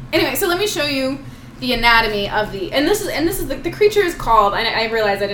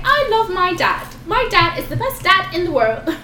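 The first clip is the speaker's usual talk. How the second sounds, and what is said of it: Australian child's voice. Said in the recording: “is that your Australian accent? ... That's my Mindy Owen when she was a child. Accent.”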